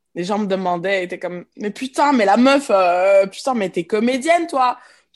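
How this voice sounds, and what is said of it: Strong Québécois French accent. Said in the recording (French): “Tu fais l'accent québécois de ouf, quoi... je parle comme ça”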